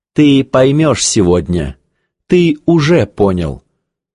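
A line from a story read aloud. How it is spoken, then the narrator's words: Plain. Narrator (Russian): сказал Алкарис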